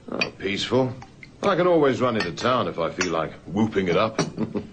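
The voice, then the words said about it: South African accent. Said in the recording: “That accent. South African, isn't it?”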